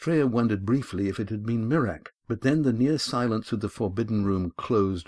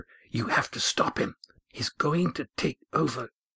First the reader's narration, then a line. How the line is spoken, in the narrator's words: an urgent voice whisper